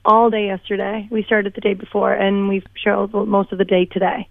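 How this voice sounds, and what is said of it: Hoarse voice. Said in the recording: “your voice seems hoarse ... My voice is hoarse.”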